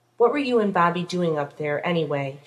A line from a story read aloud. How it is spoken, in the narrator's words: asked crossly